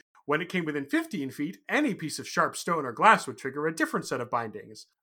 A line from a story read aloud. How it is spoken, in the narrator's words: I said brightly